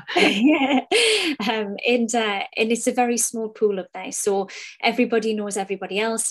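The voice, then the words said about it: Newcastle English accent. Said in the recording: “The company started out of Newcastle upon Tyne. My accent betrays me.”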